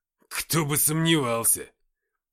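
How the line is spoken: Snapped back. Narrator (Russian): огрызнулся Никита

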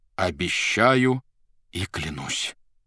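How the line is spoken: Solemn. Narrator (Russian): торжественно произнес Иван

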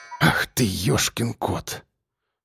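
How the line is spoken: Exhaled exclamation. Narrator (Russian): Выдохнул участковый

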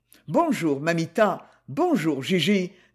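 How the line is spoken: Playful tone. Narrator (French): dit-il d'un ton badin

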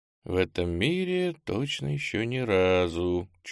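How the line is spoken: Barely audible. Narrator (Russian): чуть слышно ответил на свой вопрос

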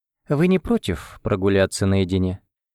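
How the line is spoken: Nearly calm, courteous. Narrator (Russian): сказала она почти спокойно и даже любезно

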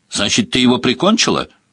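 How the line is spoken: Loud question. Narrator (Russian): громко спросил

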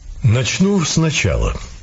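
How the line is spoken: Calm. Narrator (Russian): спокойно сказал незнакомец

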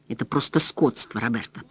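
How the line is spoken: Whispered. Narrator (Russian): прошептал он

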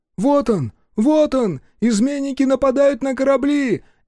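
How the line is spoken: Breathless shouting. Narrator (Russian): кричал запыхавшийся Наро, вбежавший в кораль

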